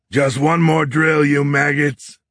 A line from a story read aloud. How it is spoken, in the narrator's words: Horn shouted